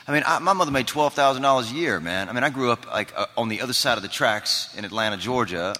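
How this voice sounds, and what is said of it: Southern American accent. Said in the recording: “You do a great Southern accent.”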